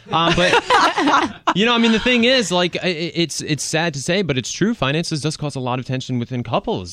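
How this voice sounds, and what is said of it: Rhode Island accent, dropped R's. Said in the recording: “your accent ... Is really coming out today ... Rhode Island last week, so maybe just the accent is rubbing off more so. So I got to get back in LA and really start pronouncing my R's.”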